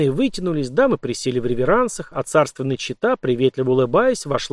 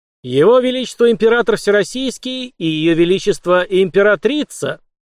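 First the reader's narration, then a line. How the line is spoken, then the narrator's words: Loud proclamation. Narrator (Russian): церемониймейстер громко провозгласил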